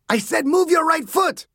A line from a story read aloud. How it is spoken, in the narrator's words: Sanchez screamed